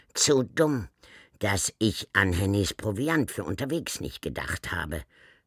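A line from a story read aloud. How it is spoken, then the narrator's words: Croaking self-reproach. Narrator (German): schalt sie sich krächzend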